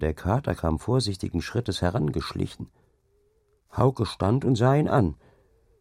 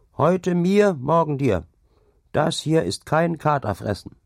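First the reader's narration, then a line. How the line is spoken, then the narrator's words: Male calling out. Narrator (German): rief er ihm zu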